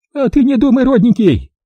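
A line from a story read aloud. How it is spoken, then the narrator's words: Whining. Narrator (Russian): Заскулила баба Люба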